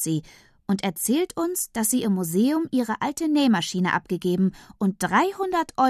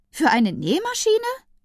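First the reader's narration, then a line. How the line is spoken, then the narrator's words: Admiring exclamation. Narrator (German): ruft Tante Leonie bewundernd aus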